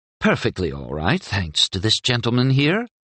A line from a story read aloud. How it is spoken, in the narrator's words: Mira purred